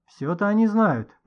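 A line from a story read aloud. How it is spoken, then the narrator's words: Grumbling. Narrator (Russian): проворчала консьержка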